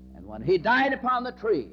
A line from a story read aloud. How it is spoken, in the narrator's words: he cried out